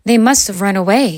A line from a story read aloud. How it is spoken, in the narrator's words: sighed Ben